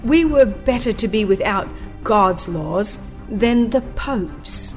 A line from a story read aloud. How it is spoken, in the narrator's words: a learned Catholic doctor exclaimed